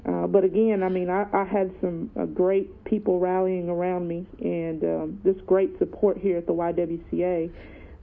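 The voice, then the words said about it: Hoarse voice. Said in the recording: “That's why I'm a little bit hoarse”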